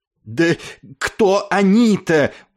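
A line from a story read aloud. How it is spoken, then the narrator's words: Angry breathless shout. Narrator (Russian): удалось все же выкрикнуть ему сквозь гневную одышку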